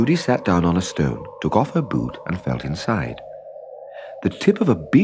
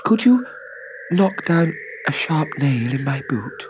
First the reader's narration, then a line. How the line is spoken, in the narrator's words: said Trudy timidly